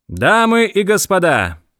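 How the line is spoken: Loud announcement. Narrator (Russian): громко произнес он

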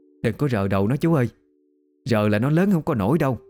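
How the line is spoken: Loud older woman. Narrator (Vietnamese): người đàn bà lớn tuổi nọ lớn tiếng cản

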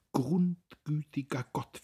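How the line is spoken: Whimpering woman. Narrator (German): wimmerte sie

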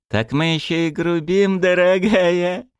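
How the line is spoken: Loud laughter. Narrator (Russian): расхохотался Ушан

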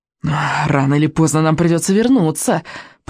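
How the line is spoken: Hissed. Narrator (Russian): прошипел Смаркала

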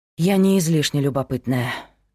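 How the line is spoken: Sighing. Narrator (Russian): вздохнула Кира

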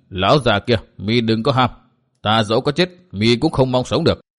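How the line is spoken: Cold. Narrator (Vietnamese): Độc trung chi độc lạnh lùng nói

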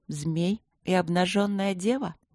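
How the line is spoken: Thoughtful reciting murmur. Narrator (Russian): пробормотала я задумчиво, как будто декламировала название старой поэмы

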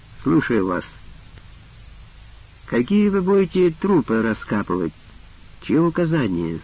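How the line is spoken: Calm commanding question. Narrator (Russian): спокойно спросил властный голос

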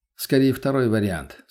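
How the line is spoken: Calm reply. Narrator (Russian): спокойно ответил я

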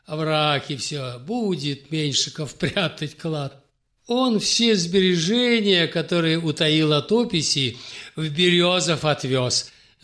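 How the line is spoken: Laughing. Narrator (Russian): засмеялась Марфа Петровна

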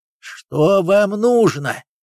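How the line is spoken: Growled. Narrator (Russian): зарычал было Павлов

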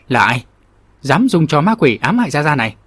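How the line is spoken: Laughing loud demand. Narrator (Vietnamese): Phà Cái thì ngẩng mặt lên trời cười ha hả lớn tiếng quát hỏi

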